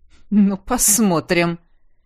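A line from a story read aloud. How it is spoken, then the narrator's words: Skeptical snort, king. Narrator (Russian): хмыкнул его величество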